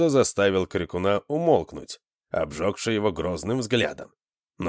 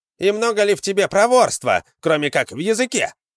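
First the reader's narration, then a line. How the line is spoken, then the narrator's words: Shouted from behind. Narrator (Russian): крикнул кто-то из стоявших сзади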